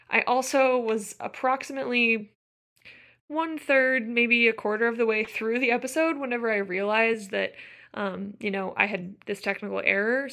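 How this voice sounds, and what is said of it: Slightly hoarse voice. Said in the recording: “my voice sounds a little hoarse,”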